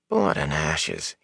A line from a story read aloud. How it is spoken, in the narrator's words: he mumbled